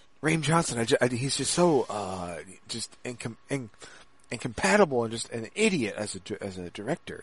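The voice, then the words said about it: Imitation of a co-host's voice. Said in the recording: “my best VQ impression. It's probably not that good”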